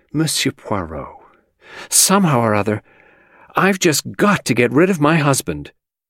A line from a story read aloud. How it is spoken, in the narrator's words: the actress sank onto a chair and exclaimed